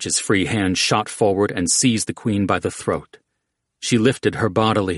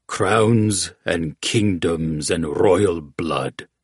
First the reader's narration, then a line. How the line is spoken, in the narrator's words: the Javadi rumbled